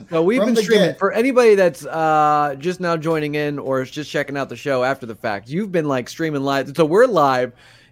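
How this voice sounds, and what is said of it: Rough, low, not fully recovered voice. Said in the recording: “my voice isn't 100% back yet ... you definitely have like a Scarlett Johansson rough ... my voice was, like, way low. It was, like, when you wake up first thing in the morning when it's, like, still, you haven't, like, cleared your throat yet”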